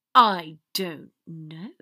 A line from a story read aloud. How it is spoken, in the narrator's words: Draco said through gritted teeth